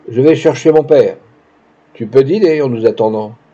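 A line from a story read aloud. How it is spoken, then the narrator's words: Almost rude tone. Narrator (French): en me disant, d'un ton presque grossier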